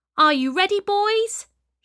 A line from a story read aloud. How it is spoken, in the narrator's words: shouted Peter